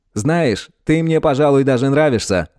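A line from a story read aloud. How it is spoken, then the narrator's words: Ghost's chuckle. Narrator (Russian): хохотнул призрак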